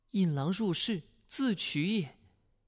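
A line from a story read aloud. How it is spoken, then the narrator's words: Shocked sigh. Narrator (Chinese): 西夫人惊闻突变，叹道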